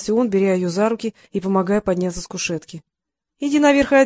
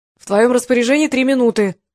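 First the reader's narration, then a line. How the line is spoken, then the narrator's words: Shouted from below. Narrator (Russian): крикнул снизу Ли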